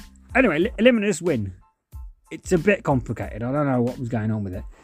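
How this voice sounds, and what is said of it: Usual voice. Nothing is said of it.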